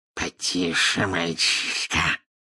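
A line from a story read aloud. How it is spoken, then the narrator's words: Hissed in snake tongue. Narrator (Russian): прошипел Мракс на змеином языке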